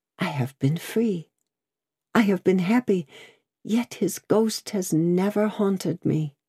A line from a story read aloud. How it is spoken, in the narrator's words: She repeated in the same tone, sunk to a whisper